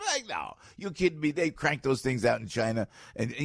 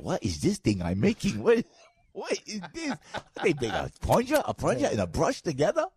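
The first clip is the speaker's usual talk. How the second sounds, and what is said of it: Put-on Chinese accent. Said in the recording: “you know the Chinese over there ... God forbid I do an accent.”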